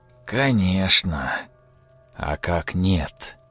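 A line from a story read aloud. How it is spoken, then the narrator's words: Forest's whisper. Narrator (Russian): Казалось, прошептал лес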